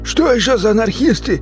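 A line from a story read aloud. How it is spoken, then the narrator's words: Confused cry. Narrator (Russian): Непонимающе вскрикнул бандит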